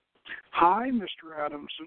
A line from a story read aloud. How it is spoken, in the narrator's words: she breathed